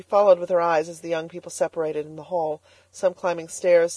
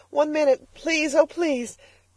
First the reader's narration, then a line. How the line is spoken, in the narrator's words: begged Elnora